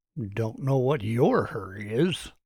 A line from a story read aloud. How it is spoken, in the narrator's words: he muttered under his breath